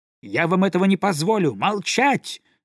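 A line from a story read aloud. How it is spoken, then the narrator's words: Breathless, agitated shout. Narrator (Russian): закричал, задыхаясь от волнения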